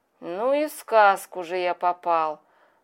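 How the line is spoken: Rueful sigh. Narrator (Russian): вздохнул сокрушенно

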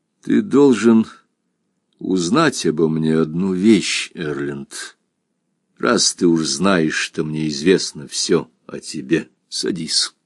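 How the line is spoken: Sighs, then speaks. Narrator (Russian): Он вздохнул раза два, потом сказал

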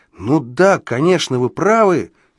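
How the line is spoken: Exclaiming with sudden realization. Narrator (Russian): воскликнул я, сообразив, о чем он

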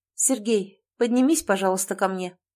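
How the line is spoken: Cold, even, precise voice. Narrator (Russian): произнесла она холодным, ровным голосом, четко формулируя каждое слово

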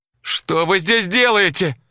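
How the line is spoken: Screamed. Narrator (Russian): завопила она

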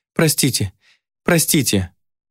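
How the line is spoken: Flustered babbling. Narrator (Russian): пролепетала ведьма

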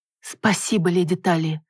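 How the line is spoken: Ragged exhaled words, woman. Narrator (Russian): рвано выдохнула женщина

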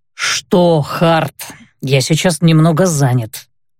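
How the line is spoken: Feigned displeased voice. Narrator (Russian): нарочито недовольным голосом ответил

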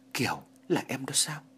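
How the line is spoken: Very soft speech. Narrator (Vietnamese): Anh khe khẽ nói

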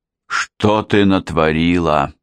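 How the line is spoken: Moaning. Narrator (Russian): простонал Хаджи Мурат

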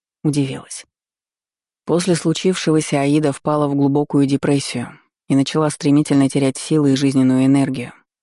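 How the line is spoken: Plain. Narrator (Russian): ответил владыка

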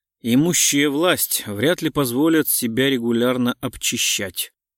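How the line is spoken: Gloomy remark. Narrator (Russian): мрачно заметил Гуров

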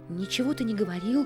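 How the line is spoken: Frightened interruption. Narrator (Russian): испуганно перебил его Мартин

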